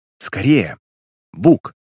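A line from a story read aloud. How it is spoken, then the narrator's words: Urgent whisper. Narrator (Russian): шептала Пэк Перри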